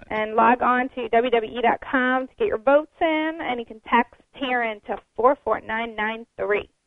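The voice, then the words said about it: Promotional infomercial-style delivery. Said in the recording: “I sound like an infomercial”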